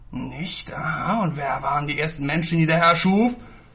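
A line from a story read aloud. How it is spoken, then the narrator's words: Thundering, furious red-faced tone. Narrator (German): Ungebremst donnerte Steiner mit hochrotem Kopf die Worte in unheiligem Tonfall durch den kleinen Raum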